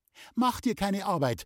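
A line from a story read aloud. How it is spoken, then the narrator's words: Calling after someone. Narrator (German): rief ihm Loni nach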